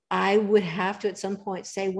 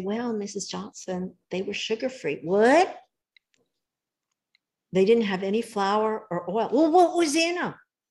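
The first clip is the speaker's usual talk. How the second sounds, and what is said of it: Put-on Southern US accent. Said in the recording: “bringing out the Southern accent from California is pretty impressive ... You know your way around the accent.”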